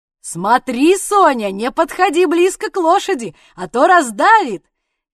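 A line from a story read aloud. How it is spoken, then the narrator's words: Shouted, mock fear. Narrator (Russian): крикнул Ваня, и, делая вид, что очень ее боится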